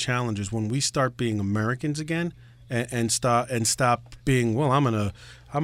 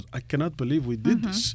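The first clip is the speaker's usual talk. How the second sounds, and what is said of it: Terrible Russian accent, Vladimir Putin. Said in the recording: “that is a terrible Russian accent. ... my professional wrestling WWF Russian. Well, Nikolai Volkov”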